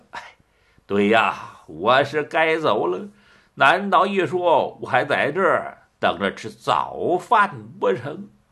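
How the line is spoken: Wry, bitter. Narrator (Chinese): 柳青满面苦笑

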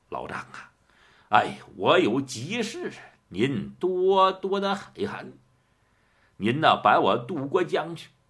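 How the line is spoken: Ingratiating, smiling. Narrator (Chinese): 满面陪笑

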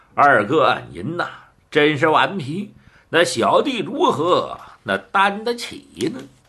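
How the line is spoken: Laughing. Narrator (Chinese): 白玉堂笑道

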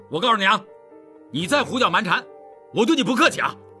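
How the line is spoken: Angry stern voice. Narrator (Chinese): 秉坤光火起来，厉声道

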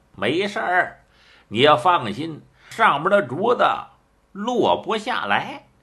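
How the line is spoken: Smiling. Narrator (Chinese): 蒋平一笑

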